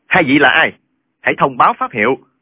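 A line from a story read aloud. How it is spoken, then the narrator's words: Shouting. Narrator (Vietnamese): Trương Thế Sơn bèn quát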